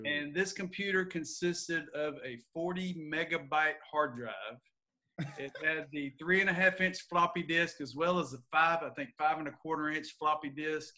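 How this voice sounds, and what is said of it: Southern US accent. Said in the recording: “a techie or a geek or whatever you want to call it with a Southern accent”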